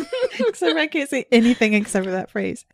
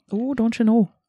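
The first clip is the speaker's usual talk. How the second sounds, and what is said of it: Put-on Upper Midwest accent. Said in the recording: “That was my Michigan accent ... Isn't that more like Minnesota? ... It's supposed to be Minnesota, so I tried.”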